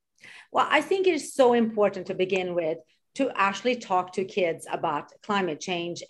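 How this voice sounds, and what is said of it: Swedish accent. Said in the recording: “You originally are from Sweden, by the way, if you can hear your beautiful accent.”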